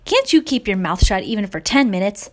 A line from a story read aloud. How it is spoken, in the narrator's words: Giselle snapped at Claire